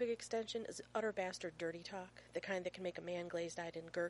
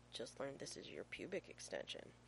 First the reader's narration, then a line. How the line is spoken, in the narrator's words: John Shepard murmurs